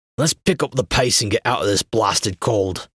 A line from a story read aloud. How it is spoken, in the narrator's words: Travis grumbled